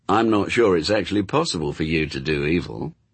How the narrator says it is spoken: said Crawley sarcastically

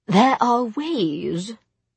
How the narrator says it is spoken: Charlotte said slowly

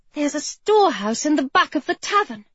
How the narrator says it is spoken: she said excitedly

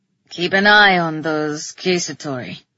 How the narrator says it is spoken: said solemnly

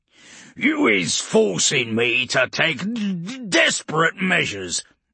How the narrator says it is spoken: Urgork spat

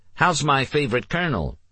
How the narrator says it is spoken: Nikki replied cheerfully

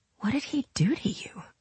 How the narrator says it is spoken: she whispered

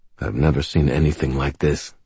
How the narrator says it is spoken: Michael said quietly

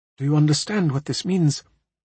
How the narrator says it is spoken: Quietly, Lynn says to me

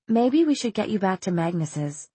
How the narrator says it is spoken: she said as gently as she could

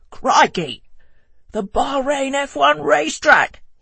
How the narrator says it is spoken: he yelled

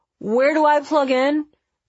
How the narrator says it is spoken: He called out, his voice muffled

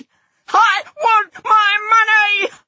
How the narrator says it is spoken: screamed

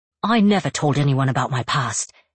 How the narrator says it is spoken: he snaps back

